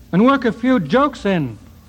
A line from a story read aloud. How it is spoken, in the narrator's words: cried Heine